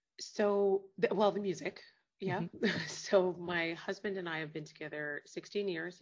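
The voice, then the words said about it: Canadian accent. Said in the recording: “I can hear your lovely accent. You're from Canada”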